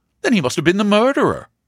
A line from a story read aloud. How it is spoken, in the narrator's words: exclaimed Fox